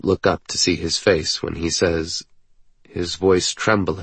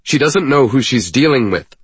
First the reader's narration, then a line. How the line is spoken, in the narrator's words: I say sharply